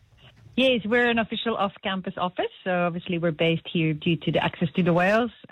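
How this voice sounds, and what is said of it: Belgian Flemish accent in English. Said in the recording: “the accent, Prof ... I'm originally Belgian ... You could understand my Flemish too”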